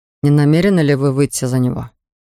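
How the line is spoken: Cold question. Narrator (Russian): холодно спросил я

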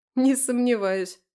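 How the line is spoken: Snorting. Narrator (Russian): фыркнула я

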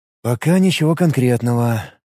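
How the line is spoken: Sighing. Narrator (Russian): вздохнул Ид

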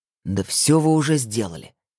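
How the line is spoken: Grumbling. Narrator (Russian): заворчал он

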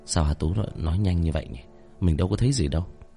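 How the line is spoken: Soft tongue-click musing. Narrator (Vietnamese): Tôi khẽ chép miệng

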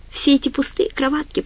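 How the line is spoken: Tearful. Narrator (Russian): проговорила она сквозь слезы

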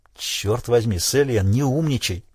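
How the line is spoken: Irritated whisper. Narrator (Russian): раздраженно прошептал Крейг

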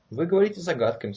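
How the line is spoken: Plain. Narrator (Russian): сказала она

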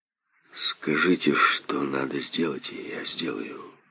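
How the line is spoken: Mutter. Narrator (Russian): пробормотал он

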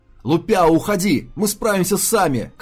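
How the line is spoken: Shout. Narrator (Russian): крикнул Ли

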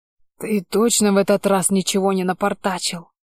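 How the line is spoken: Wheeze. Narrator (Russian): Просипел я

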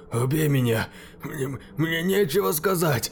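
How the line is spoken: Man forcing words out. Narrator (Russian): Выдавил из себя мужчина

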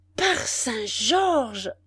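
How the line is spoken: Surprised exclamation. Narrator (French): s'écria-t-il avec un mouvement de surprise

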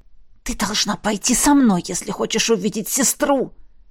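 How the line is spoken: Hissing. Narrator (Russian): прошипела Вероника

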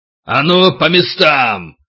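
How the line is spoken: Growling, sensei. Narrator (Russian): рычая сенсей

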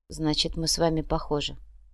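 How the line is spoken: Sighed. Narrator (Russian): вздохнула Марина

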